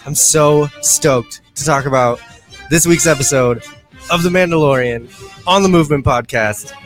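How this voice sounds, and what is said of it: Breathless, excited speech. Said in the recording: “I'm all out of breath. I'm all excited.”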